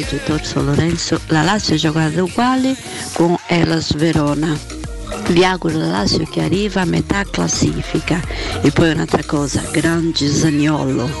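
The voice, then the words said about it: Distinctive charming accent. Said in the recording (Italian): “Fa impazzire veramente, fa impazzire questo modo di parlare, questo ... accento ... è bellissimo.”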